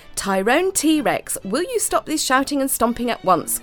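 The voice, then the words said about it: Very cross, commanding voice. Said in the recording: “commanded Mary in a very cross voice”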